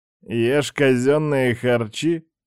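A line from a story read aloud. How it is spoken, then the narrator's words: Snorting. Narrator (Russian): хмыкнул он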